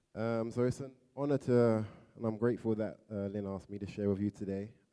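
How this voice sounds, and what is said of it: London English accent. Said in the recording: “From London, England. You probably can tell by my accent, it's a bit different.”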